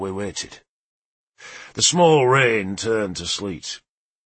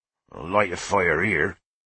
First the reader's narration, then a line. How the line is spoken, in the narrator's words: Leofric grumbled